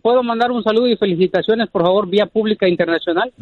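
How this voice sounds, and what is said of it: Deep formal radio-announcer voice. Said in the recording (Spanish): “Tiene voz de locutor ... ¡Es locutor este vato! ... Es muy formal.”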